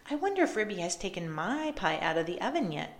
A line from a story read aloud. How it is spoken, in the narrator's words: said Duchess